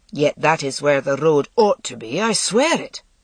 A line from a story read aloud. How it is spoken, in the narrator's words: grumbled Cormac